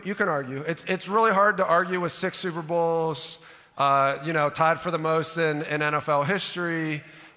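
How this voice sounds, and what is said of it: Western Pennsylvanian accent. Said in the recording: “this annoying Western Pennsylvanian accent”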